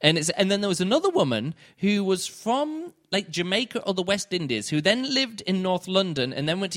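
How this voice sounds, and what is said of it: Usual voice. Nothing is said of it.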